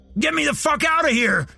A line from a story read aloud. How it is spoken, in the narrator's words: Randy shouted